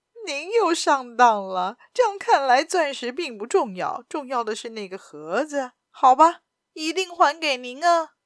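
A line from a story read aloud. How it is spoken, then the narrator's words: Loud laughter. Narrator (Chinese): 亚森罗平大笑起来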